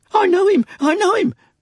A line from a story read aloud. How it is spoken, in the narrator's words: cried Barnaby